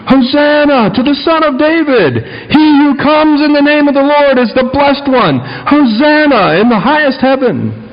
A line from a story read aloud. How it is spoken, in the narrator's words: kept shouting